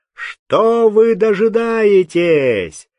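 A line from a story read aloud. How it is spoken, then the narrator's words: Thunderous shout. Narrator (Russian): закричал он громовым голосом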